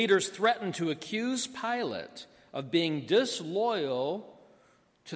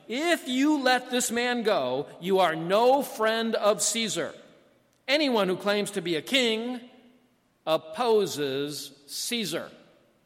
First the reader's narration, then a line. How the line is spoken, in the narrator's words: the Jewish leaders kept shouting